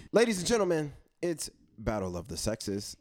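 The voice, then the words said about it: Game show host announcer voice. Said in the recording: “Was that your game show voice? ... It was a game show voice.”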